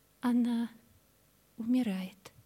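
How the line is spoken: Barely audible. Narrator (Russian): чуть слышно прибавила

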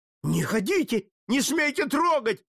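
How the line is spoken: Shouting. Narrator (Russian): закричал иезуит

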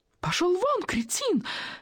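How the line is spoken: Shrieking reply. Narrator (Russian): визжала в ответ Волочковская

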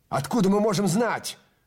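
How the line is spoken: Shout. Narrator (Russian): крикнул Трэвис

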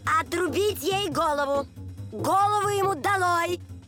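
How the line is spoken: Queen's furious shouting. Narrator (Russian): королева пришла в бешенство, то и дело кричала

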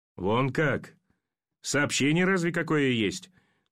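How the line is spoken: Incredulous chuckle. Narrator (Russian): Недоверчиво хохотнул пулеметчик

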